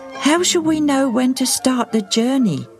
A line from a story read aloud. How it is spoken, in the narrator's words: Agate asked anxiously